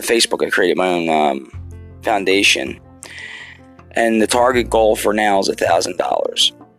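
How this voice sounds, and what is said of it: Rough, worn-out tired voice. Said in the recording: “my voice is trash right now and I'm tired”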